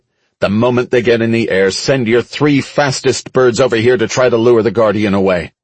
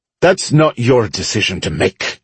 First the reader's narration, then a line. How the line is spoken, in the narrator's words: she said sharply